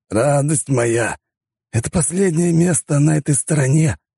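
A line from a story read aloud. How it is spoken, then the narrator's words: Loud whisper, man. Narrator (Russian): громко зашептал барон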